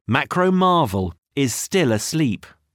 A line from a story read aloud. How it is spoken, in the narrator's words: Max said